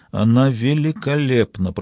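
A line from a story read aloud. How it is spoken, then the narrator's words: Mumbling. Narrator (Russian): пробормотала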